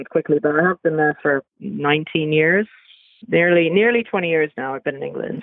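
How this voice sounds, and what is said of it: Slight British twang. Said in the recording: “you have a a British kind of twang ... I didn't know ... was British”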